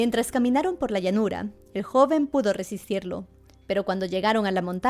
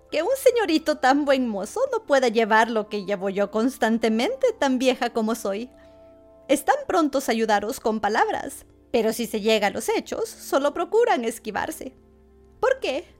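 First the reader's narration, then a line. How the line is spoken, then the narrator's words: Mocking tone. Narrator (Spanish): dijo con tono burlón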